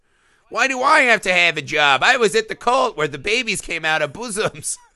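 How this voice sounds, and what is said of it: Imitates another person's voice. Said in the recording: “your Lena Dunham impression is spot on. It's really good.”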